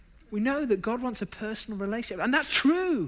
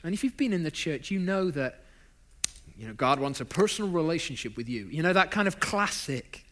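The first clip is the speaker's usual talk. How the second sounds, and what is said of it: Put-on American accent. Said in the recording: “That was my best American accent, by the way. It doesn't get any better than that, folks, I'm afraid.”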